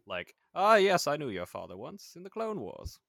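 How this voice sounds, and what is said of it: Dodgy put-on accent. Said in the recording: “That's a dodgy accent there.”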